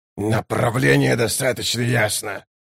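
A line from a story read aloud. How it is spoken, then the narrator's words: Growling. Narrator (Russian): прорычал Баргаст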